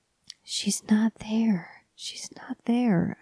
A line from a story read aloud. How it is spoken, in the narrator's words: whispered, rocking him in my arms